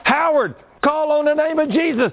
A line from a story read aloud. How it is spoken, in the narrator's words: me, I started screaming